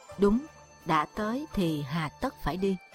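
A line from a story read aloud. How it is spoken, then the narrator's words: Middle-aged man, thoughtful smiling. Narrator (Vietnamese): Người trung niên trầm ngâm và mỉm cười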